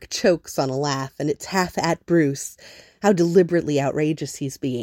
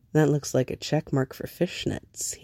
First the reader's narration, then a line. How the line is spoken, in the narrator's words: says quietly